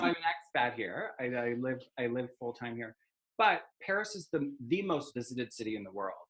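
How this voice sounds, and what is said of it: Non-French accent. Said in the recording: “I'm not French, as you can tell from my accent.”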